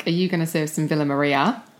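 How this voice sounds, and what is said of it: Put-on Australian accent. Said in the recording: “I'll sometimes slip into an Australian accent ... Do your Australian accent.”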